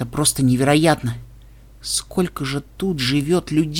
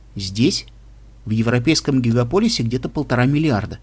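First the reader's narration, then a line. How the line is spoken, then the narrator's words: Plain. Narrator (Russian): ответил парень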